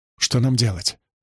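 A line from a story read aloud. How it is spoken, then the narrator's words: Whisper. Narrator (Russian): прошептала Цабига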